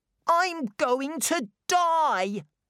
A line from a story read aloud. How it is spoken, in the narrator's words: cried Colin